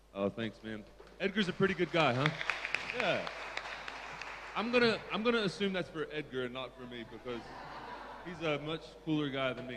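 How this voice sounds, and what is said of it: Southern American accent. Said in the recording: “Sorry for the American accent. ... As Americans, we're not very good at enunciation, especially in the southeast of the United States ... I come from Tennessee in the eastern part of the United States”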